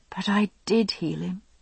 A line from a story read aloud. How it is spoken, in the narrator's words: I said softly